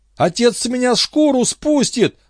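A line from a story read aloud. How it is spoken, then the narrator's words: Yelled. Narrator (Russian): завопил парень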